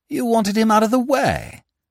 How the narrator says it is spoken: I exclaimed

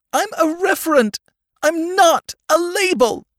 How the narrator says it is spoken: cried the child

